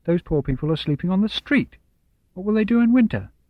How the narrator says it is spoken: Mamma said sharply

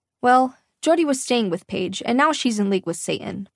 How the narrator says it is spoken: Mom snapped, as if she were discussing someone who committed a social faux pas rather than joined forces with the ruler of hell

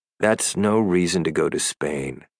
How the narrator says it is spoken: I said sullenly

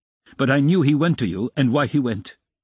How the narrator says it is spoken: Raskolnikov answered sharply

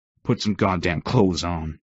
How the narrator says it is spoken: I snapped, mostly pissed at myself for letting it go this far

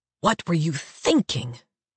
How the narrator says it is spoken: Ephraim hisses in my ear

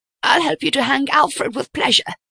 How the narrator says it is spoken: she replied gruffly

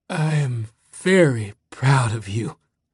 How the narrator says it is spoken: His new old man had gasped

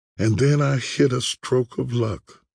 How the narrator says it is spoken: They sigh and say

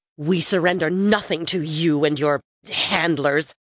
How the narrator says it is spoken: Thyat spat

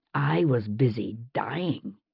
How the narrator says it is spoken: he said, through gritted teeth

